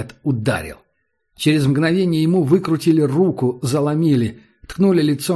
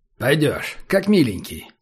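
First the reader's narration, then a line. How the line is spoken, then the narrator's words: Calm. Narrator (Russian): спокойно сказал Убер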